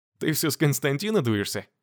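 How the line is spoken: Laughing. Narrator (Russian): рассмеялась Светлана

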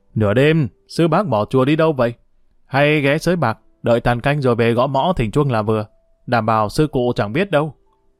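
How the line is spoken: Sarcastic. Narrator (Vietnamese): gã thấp hơn nói với giọng đầy mỉa mai

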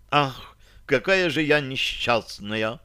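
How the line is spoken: Theatrical sigh, mother. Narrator (Russian): Патетично вздохнула матушка

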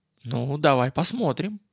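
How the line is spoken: Uncertain. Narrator (Russian): молвил я неуверенно

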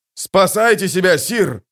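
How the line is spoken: Commander shouting. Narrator (Russian): закричал их командир

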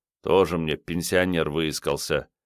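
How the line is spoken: Quiet teasing retort. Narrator (Russian): тихо отыгрался за все подначки в свой адрес Айболит

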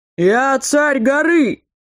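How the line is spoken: Shouting. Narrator (Russian): кричал каждый из них

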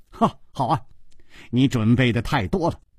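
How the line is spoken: Laughing. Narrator (Chinese): 楚留香笑着说

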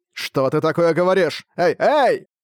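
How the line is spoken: Shouting. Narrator (Russian): кричал Шамбала

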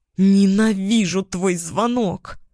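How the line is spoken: Angry growl. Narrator (Russian): прорычала я

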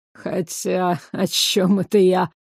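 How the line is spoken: Snorted. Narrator (Russian): фыркнул Ансель

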